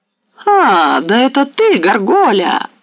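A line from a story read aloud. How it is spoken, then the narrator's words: Joyful cry. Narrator (Russian): вскрикнула радостно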